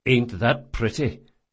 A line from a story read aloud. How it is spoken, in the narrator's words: muttered the watch sergeant